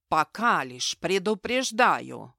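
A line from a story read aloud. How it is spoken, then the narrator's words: Growled. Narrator (Russian): рыкнул он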